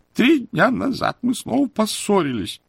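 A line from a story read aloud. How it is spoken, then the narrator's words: Muffled voice broken by sobs. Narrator (Russian): донесся из-под платка глухой голос, прерываемый рыданиями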